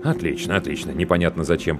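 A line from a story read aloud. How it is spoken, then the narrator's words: Man muttering. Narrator (Russian): пробормотал мужчина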